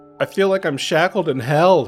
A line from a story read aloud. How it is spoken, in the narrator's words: wailed